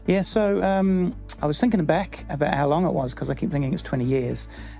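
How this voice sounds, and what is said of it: New Zealand accent. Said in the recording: “I've clearly lost all my accent, haven't I? No, it's remained ... I still sound like a New Zealander”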